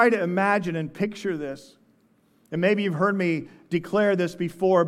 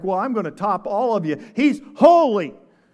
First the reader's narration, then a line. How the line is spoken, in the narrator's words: one angel shouts out to another